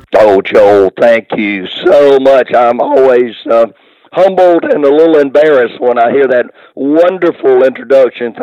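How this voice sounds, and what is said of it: Hoarse, strained voice. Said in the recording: “Sorry about the hoarse in my voice today, but it's been a little strained... just sound bad on occasion”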